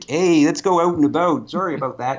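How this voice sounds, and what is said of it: Exaggerated Canadian accent. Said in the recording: “I spend so much time and effort into losing the Canadian accent.”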